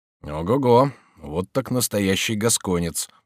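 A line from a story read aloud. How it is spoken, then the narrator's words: Muttered. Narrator (Russian): пробормотал Робер Брике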